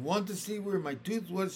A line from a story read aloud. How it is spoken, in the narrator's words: she asked